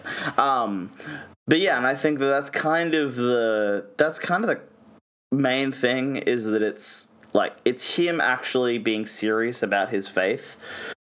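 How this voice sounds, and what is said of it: Georgian (US Southern) accent. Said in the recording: “my Georgian accent”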